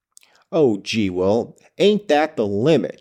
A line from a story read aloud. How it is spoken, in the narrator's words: she replied angrily, yet more because she was irritated by the fact that what he said was true